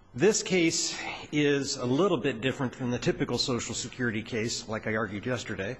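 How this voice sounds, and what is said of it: Scratchy, hoarse voice. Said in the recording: “I apologize for my voice this morning. I'll try to keep my voice up. I'm a little scratchy this morning”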